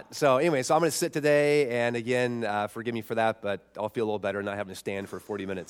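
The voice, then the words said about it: Sick voice, not deep. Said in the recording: “I'm not feeling so hot ... as you can tell from my voice, like I said, it's not my radio deep voice.”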